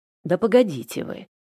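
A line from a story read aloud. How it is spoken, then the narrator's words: Growl. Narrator (Russian): рыкнул на мужчину Денис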